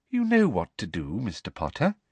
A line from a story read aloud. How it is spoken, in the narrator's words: said Umbridge, smiling sweetly at him